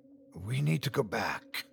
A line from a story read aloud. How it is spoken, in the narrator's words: I said in a harsh whisper